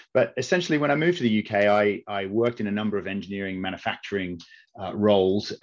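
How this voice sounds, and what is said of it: Mild Australian accent. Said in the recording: “You might be able to tell from my accent that I'm Australian by birth ... that's kind of a little bit of the twang that has been lost”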